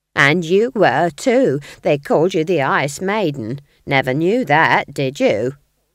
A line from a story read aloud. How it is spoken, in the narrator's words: sneered Nanny